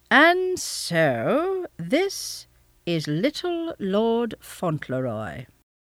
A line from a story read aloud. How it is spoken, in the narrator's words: he said at last slowly